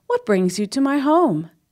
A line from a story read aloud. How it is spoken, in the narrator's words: Amu exclaimed